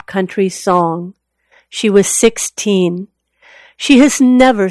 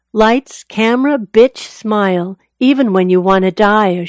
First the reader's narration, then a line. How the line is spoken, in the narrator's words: she chirps on the fake bubbly